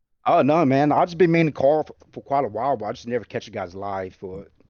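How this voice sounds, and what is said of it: Unusual Southern country accent. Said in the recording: “I got that country accent in a way ... Yeah, I hear the Georgia ... He has definitely the most unique accent that I've heard on this show ... I've never heard that accent.”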